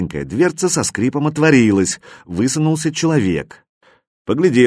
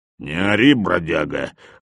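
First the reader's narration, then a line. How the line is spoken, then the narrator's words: Hoarse rumbling. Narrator (Russian): хрипло пророкотал хозяин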